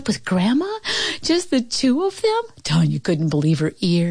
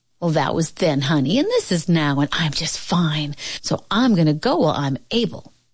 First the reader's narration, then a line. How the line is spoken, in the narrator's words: the old woman said firmly